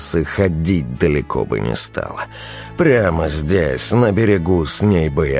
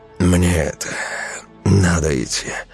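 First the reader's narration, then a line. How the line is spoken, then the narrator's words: Loud exhale. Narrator (Russian): шумно выдохнул Велес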